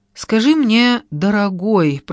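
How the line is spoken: Drawled, outwardly calm. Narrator (Russian): протянула я внешне спокойно

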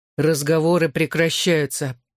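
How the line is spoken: Agitated growl. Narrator (Russian): прорычал я, взбудораженный тем, что в команде болтали о ней

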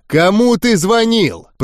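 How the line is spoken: Growl. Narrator (Russian): прорычал я

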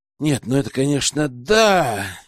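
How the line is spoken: Bewildered drawl. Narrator (Russian): растерянно протянул Герман, осознав масштаб проблемы

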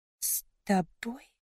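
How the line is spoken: Faint whisper. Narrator (Russian): Мой шепот потерялся между нами

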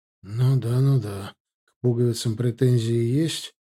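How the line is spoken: Muttering. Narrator (Russian): пробормотал я

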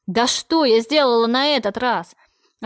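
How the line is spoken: Angry yelling. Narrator (Russian): я тоже рычала, в смысле орала

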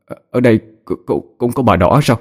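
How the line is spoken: Trembling voice. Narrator (Vietnamese): Một cậu sinh viên run rẩy nói

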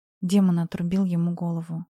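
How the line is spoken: Quiet reply. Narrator (Russian): тихо ответила Сади

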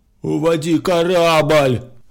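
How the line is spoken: Hoarse shout. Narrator (Russian): хрипло закричал он

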